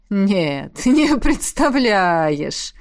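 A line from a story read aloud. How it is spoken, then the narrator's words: Laughing. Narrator (Russian): рассмеялся дракон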